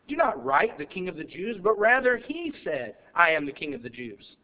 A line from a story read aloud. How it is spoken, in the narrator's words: Pilate answered